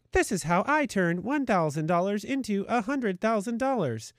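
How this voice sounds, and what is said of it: Robotic voice. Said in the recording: “the robot voice.”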